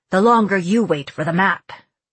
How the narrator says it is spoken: he growled

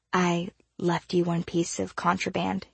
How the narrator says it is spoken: he whispered

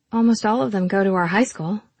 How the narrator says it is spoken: I said

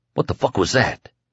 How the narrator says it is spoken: the kid whispered

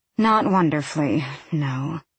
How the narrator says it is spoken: she sighs, resigning herself to my whims

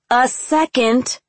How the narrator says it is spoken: snapped

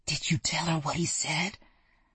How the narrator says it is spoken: But his whisper was more like a shout

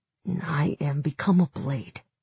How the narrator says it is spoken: He hesitated, then cleared his throat and muttered

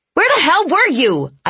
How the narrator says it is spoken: I yelled at her, tears suddenly appearing now that my sister was here

